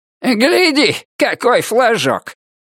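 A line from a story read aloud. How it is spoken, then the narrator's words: Shouting. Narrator (Russian): прокричал он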